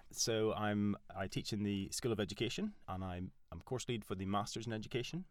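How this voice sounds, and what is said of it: Northern Irish accent. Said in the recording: “I'm Northern Irish. That's what this weird accent is.”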